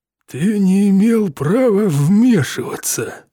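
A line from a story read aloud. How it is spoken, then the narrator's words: Through gritted teeth. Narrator (Russian): сквозь зубы процедил мистер Питерсон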